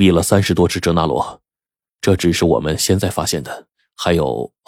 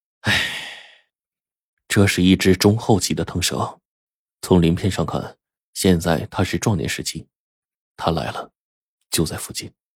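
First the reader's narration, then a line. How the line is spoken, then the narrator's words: Sighing. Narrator (Chinese): 冰窟窿一叹说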